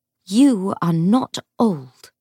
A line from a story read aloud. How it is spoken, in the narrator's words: she said fiercely